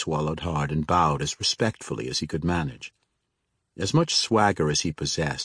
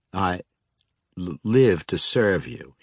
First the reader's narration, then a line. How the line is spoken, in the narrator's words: he stammered